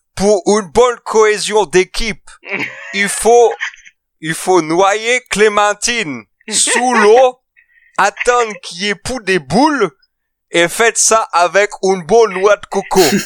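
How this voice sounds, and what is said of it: Imitation of Mike Horn's accent. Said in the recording (French): “je vais essayer de vous le faire avec l'accent ... il y a des errances sur l'accent”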